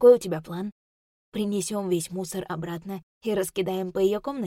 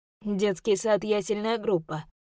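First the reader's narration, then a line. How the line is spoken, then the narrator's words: Scoffing snort. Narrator (Russian): фыркнул Алик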